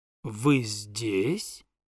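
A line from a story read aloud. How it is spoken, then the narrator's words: Menacing. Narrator (Russian): сказала она, грозно посмотрев на меня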